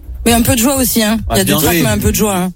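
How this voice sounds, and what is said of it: Southern French Avignon accent. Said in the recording (French): “j'ai encore l'accent d'Avignon ... l'accent est resté ... J'ai gardé un peu l'accent d'en bas.”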